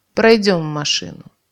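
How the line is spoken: Angry grumble. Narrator (Russian): все так же злобно проворчал мужик

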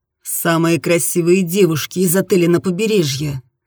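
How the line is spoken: Deep velvety voice. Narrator (Russian): сказал он своим глубоким бархатным голосом

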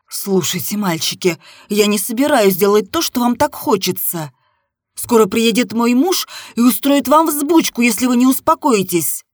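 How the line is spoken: Stern. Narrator (Russian): строго сказала я

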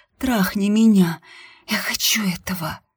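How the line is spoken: Whisper. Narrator (Russian): шепнула я ему

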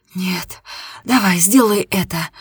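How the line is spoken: Muffled moan. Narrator (Russian): Нина глухо простонала

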